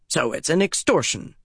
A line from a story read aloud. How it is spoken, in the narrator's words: Darlin snapped